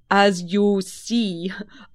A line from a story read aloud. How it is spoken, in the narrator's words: I said with a bow, and I suppose a rather melancholy little laugh